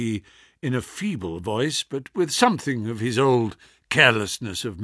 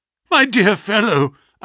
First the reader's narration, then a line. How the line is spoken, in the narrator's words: I cried